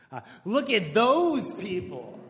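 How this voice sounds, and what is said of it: Exclaimed impression of another person. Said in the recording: “do a good Kim impression”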